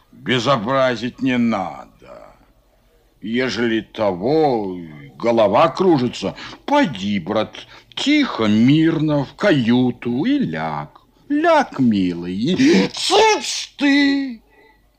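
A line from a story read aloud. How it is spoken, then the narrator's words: Growl. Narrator (Russian): Зарычал Фома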